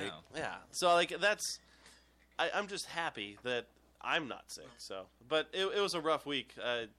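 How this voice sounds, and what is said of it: Congested, stuffy voice. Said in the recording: “Doesn't he sound congested? ... I'm a little congested.”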